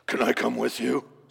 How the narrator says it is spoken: spat the demon

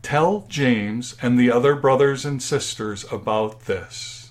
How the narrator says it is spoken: he said

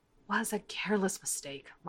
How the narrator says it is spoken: Mara mutters

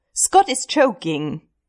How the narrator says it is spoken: he blurts out

